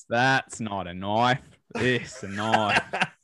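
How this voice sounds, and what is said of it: Put-on Australian accent, good. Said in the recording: “Australian accent ... That's pretty fucking good.”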